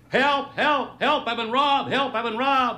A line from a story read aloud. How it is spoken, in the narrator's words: suddenly he started to yell